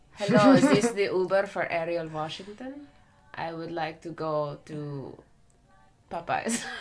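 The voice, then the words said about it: Put-on Russian villain accent. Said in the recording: “do your villain accent. ... My Russian accent goes like this very much, so gentle.”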